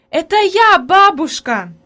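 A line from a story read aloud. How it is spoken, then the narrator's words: Joyful shout. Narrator (Russian): Закричала обрадованно Хайди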